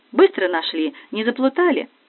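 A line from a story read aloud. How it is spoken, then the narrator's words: Cheerful young woman asking. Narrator (Russian): девушка весело спросила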